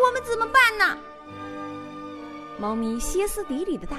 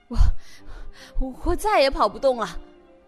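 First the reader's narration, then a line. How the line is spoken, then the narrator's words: Panting donkey. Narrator (Chinese): 驴子喘着粗气说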